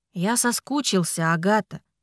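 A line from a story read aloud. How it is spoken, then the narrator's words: Serious statement. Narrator (Russian): серьезно заявил он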